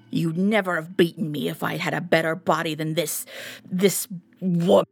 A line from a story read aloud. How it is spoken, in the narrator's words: spat